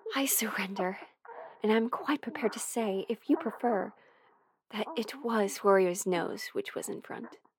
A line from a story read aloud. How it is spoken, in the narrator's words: she say breathlessly